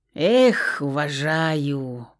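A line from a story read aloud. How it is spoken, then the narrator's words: Drawn-out admiring drawl. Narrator (Russian): протянул Богуславский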